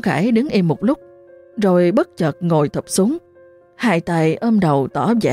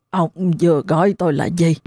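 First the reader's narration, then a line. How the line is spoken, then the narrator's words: Hoarse voice. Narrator (Vietnamese): một giọng nói khàn khàn phát ra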